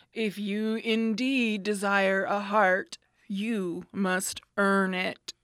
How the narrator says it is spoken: Oz gave a low growl at this and said gruffly

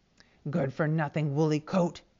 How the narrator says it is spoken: whispered

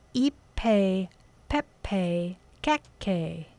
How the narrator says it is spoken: she said slowly

